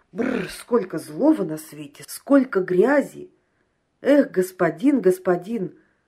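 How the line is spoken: Exclaiming. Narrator (Russian): воскликнул Борис Романович

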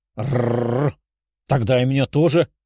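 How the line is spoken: Playful growl. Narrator (Russian): прорычала Даша

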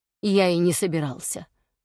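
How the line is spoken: Calm regal reply. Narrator (Russian): спокойно ответил король

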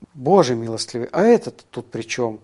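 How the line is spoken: Muttering. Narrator (Russian): пробормотала Джела

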